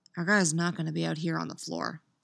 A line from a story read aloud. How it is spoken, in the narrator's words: said, bending his head to her ear and keeping his voice low